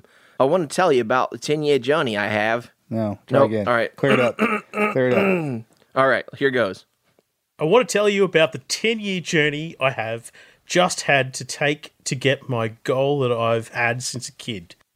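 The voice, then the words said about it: Put-on Australian accent. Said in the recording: “I'm gonna try to do it in my Australian accent ... That sounds pretty good.”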